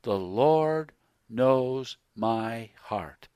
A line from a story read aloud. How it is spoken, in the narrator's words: with a sanctimonious look, said slowly